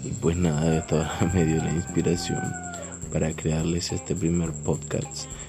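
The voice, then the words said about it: Colombian coastal Spanish accent. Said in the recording (Spanish): “por mi acento soy de Colombia, más específicamente la costa”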